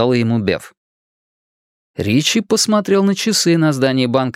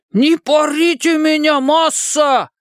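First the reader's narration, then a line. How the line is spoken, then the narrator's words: Shouting in imitated voice. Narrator (Russian): закричал Ричи голосом Пиканини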